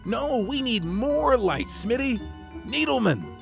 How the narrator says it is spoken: shouted

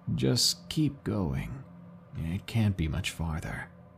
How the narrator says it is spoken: he said in a quiet, raspier voice

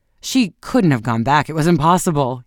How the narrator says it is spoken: exclaimed

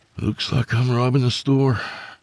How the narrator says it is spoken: he sighed

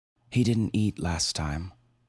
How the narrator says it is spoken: she said

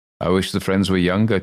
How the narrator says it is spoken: chuckled Dr

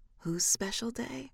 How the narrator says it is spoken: she mutters

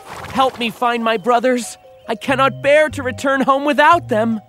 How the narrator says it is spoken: the youngest brother begged the dwarf

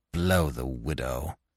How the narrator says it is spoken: he growled

